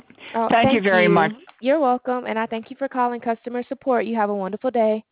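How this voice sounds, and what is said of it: Sweet Alabama accent. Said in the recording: “You have the sweetest accent. ... Where are you calling me from? ... Alabama.”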